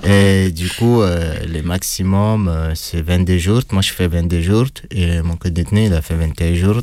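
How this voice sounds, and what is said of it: Speaker's own accent in French. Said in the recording (French): “Désolé pour mon, accent.”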